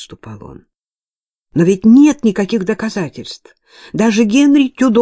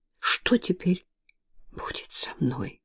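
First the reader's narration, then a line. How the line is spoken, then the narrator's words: Fearful whisper. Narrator (Russian): прошептала она, боясь услышать ответ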